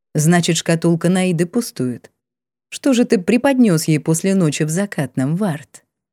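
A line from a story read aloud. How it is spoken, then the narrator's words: Calm restrained, emperor. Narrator (Russian): Император говорил спокойно, сдержанно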